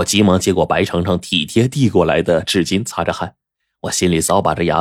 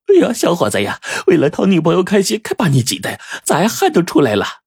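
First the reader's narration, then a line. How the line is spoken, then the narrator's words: Laughing, hurried. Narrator (Chinese): 老板娘捂嘴一笑，忙说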